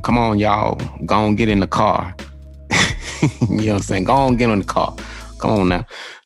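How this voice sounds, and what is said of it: Put-on Southern accent. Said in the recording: “Southern people, they talk with an accent. So everybody had the accent.”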